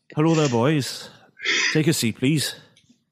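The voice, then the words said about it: Put-on Welsh or Scottish character voice. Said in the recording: “I've got to do his voice... I'm going to do Starflower... Wasn't he Welsh? I'm sure he was Welsh... I thought it was Scottish”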